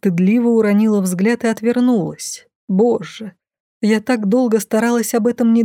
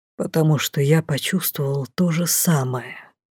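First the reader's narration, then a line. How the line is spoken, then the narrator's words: Mage whispering. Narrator (Russian): шепнул маг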